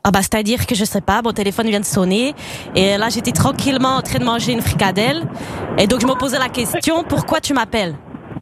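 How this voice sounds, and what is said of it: Put-on Belgian French accent. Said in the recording (French): “tu vas devoir faire l'accent belge ... Je suis incapable de le tenir sur toute une conversation ... Oh, c'est ridicule.”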